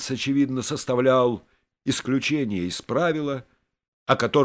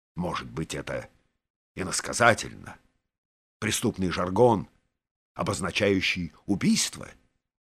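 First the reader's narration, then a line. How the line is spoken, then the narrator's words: Quiet question. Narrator (Russian): тихо спросил министр начальника полиции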